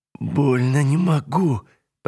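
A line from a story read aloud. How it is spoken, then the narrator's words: Moaning in pain. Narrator (Russian): простонала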